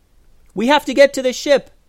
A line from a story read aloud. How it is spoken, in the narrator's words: yelled Eleanor